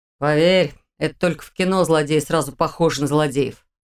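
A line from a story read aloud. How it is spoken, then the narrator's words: Snort. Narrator (Russian): хмыкнул он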